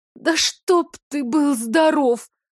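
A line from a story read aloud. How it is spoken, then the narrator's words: Groaning exhale. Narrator (Russian): со стоном выдохнула Калина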